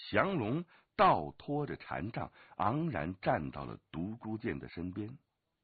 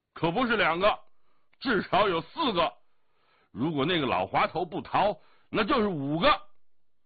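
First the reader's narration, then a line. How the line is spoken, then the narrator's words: Hearty laughing voice. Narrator (Chinese): 一个声音豪迈的笑着说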